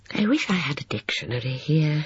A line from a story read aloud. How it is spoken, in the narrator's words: she murmured